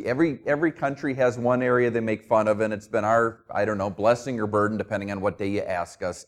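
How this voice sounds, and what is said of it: New Jersey accent. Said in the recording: “Don't let the New Jersey thing distract you. You can probably hear from my accent.”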